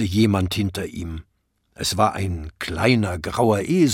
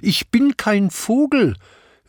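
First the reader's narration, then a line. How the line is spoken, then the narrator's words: Indignant shout. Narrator (German): rief Hatschi entrüstet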